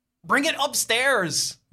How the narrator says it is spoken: You shout

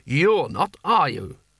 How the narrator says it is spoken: He added sharply

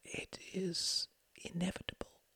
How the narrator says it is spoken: whispered Klaus

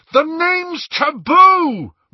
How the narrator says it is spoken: Ron bellowed, leaping to his feet

